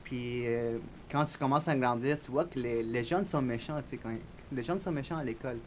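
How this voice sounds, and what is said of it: Spanish accent speaking French. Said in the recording (French): “j'ai un accent espagnol”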